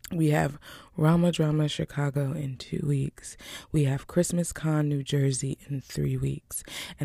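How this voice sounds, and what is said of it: Smooth, low jazz-radio-style voice. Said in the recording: “As you can hear, I'm still using my smooth jazz radio voice because I want to make sure that I rest fully ... Smooth Jazz Radio”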